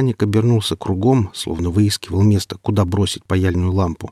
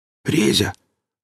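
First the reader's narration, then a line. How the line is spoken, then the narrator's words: Question, no longer whispered. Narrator (Russian): Он спросил уже не шепотом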